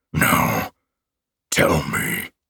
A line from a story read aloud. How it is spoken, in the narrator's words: he growled